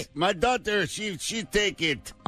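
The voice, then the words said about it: Put-on Russian accent. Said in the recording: “All your European accents are exactly the same. ... But it's a Russian accent.”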